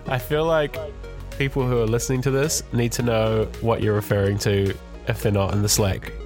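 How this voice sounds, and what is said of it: Sick, flu-affected voice. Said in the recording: “You sound sick. ... I'm very sick. Terribly ill. ... It's just the flu.”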